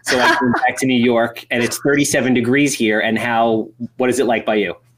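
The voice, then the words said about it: Nasal Brooklyn-Long Island New York accent. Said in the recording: “my nasally Jewish coffee talk thing ... I was born in Brooklyn, so I get a little bit of that. So it's like Brooklyn meets Long Island coffee water.”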